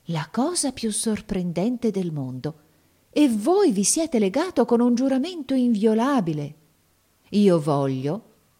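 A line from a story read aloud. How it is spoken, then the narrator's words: Exclaimed. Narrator (Italian): esclamò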